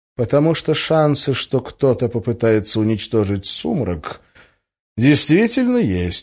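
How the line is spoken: Calm. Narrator (Russian): спокойно сказал Гессер

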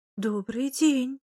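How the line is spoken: Bewildered reply. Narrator (Russian): Растерянно ответила

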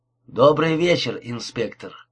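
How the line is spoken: Calm greeting. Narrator (Russian): спокойно приветствовал его Инглиш

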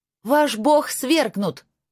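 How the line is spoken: Full-force shout. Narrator (Russian): крикнула я изо всех сил

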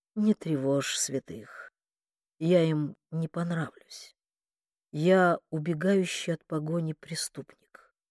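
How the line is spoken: Hoarse. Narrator (Russian): Он хрипло проговорил

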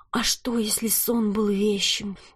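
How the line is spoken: Whispering inner voice. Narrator (Russian): прошептал внутренний голос

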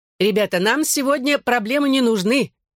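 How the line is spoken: Shout over crowd noise. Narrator (Russian): крикнул барменша, перекрыв шум толпы

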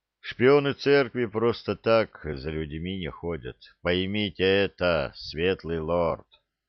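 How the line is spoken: Weary sigh. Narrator (Russian): Устало вздохнул старший Арынват

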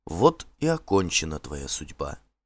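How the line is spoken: Quiet. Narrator (Russian): тихо сказала Норна

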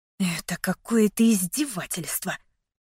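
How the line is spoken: Grim hiss. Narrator (Russian): мрачно прошипела я

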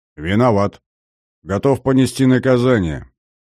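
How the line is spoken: Calm, confident tone. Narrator (Russian): спокойным, уверенным тоном произнес Максим

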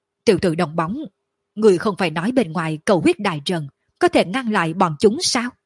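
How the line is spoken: Tense, deep booming. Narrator (Vietnamese): Lôi Hống trong lòng khẩn trương ồm ồm nói

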